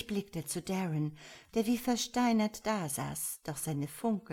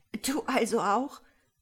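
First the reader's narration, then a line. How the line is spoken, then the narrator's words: Gasped into napkin. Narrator (German): keuchte ich in die Serviette und musste irgendwie selber anfangen zu lachen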